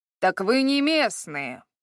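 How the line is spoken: Man's growl. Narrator (Russian): прорычал мужчина

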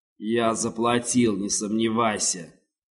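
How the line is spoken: Low, grating, spiteful voice. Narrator (Russian): заскрежетал он низким и злобным голосом

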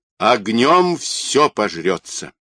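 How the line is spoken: Solemn proclamation. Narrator (Russian): торжественно провозгласил Юра

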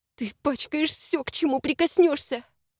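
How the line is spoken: Hissed. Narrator (Russian): зашипела

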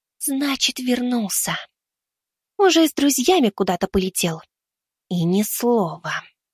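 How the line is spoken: Whisper. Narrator (Russian): прошептала она

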